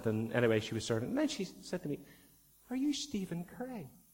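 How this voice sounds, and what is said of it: Northern Irish accent. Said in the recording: “"You're not from Ireland, you're from Northern Ireland." ... You're from Northern Ireland in terms of accent.”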